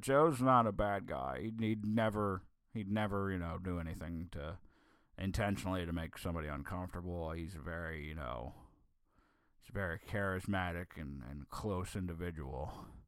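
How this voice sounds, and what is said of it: Imitates another person's voice. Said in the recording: “I'm trying to get into my Carney voice here. I can't really ... he's got a weird voice ... It's a terrible John Carney.”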